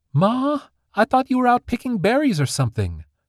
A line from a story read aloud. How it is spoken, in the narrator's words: squeaked Dandy